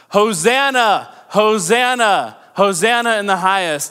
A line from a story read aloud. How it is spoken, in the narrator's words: the people were shouting